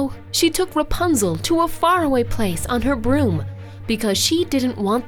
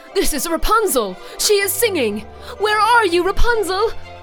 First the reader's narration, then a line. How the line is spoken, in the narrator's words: He started shouting with excitement